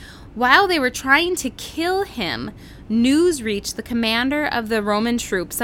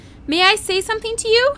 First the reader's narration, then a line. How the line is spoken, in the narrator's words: he shouted to the commander